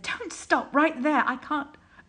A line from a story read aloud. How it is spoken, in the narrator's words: Aziraphale moaned and said